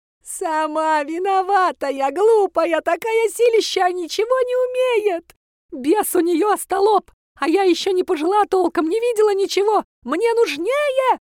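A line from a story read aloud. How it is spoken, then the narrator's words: Shrieking. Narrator (Russian): завизжала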